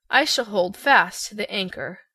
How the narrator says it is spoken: said the Scarecrow earnestly

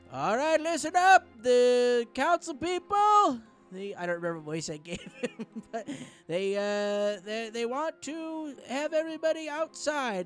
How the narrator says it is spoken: Zokar, he yells from behind the bar

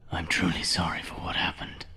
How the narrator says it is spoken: whispered Carl

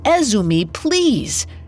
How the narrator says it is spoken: Yudai shouted after his friend

